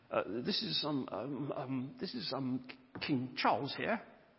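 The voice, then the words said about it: Imitated posh voice. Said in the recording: “quite a posh voice ... I'm imitating now”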